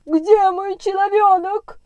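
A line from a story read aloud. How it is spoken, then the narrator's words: Old clown shouting frantically. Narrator (Russian): кричал неистово старый клоун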